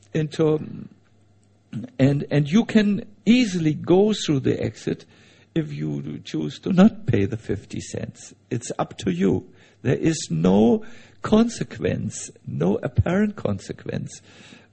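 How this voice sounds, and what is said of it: Heavy foreign accent. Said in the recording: “I speak with a heavy accent. I know it is a torture to listen to me.”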